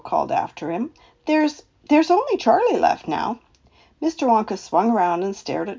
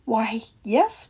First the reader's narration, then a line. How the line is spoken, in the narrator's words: whispered Charlie